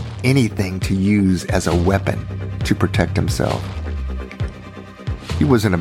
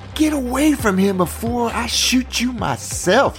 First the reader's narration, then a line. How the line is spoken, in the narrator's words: yelled